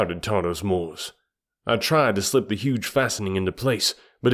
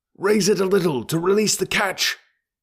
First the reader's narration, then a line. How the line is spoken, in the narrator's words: cried one of the red men